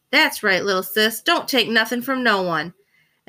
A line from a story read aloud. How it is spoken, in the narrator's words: The other Black Panthers laughed and told Fern